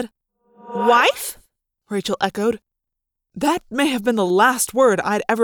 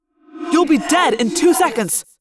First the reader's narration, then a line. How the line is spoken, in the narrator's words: I snapped at the Hork-Bajir after I'd recovered from the shock